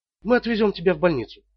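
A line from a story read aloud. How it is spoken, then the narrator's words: Whispered. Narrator (Russian): прошептала Марилин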